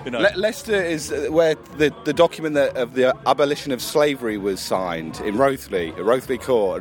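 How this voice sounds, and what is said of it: Slight Leicester English accent. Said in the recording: “a little Leicester twang”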